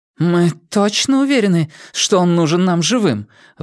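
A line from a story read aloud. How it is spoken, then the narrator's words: Strained, forced out. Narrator (Russian): выдавила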